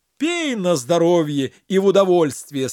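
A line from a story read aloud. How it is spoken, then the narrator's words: Said, then loud laughter. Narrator (Russian): сказал халиф и расхохотался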